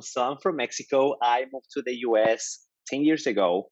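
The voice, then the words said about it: Mexican accent in English. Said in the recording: “I'm actually Mexican. As you can tell, okay. I have an accent.”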